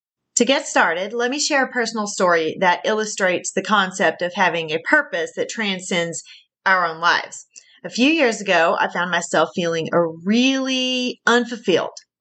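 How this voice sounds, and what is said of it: Southern American accent. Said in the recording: “my southern accent is coming through strong”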